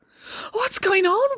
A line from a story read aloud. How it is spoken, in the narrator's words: wailed Samantha